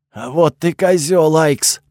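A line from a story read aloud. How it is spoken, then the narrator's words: Angry rasp. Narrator (Russian): прохрипел он со злостью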